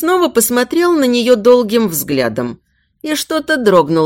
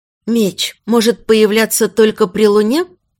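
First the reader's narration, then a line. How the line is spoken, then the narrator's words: Hoarse whispered question. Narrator (Russian): Хриплым шепотом поинтересовалась она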